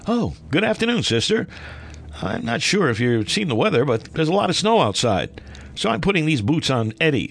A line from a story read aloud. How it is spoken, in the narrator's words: Dad cheerfully replied